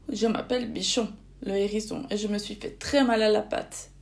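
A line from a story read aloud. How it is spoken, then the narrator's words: Sobbing. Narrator (French): dit-il tout sanglotant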